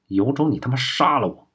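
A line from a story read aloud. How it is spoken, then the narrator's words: Through gritted teeth. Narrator (Chinese): 郭一成咬牙说道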